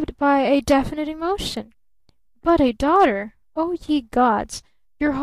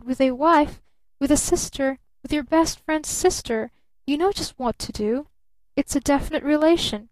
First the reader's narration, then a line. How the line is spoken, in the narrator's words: he stammered